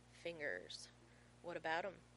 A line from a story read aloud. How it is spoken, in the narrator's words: John groans